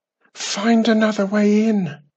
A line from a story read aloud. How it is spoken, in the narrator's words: pleaded